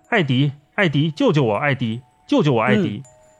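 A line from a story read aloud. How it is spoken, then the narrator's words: Distant desperate shouting. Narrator (Chinese): 一个声音在钢缆底部喊叫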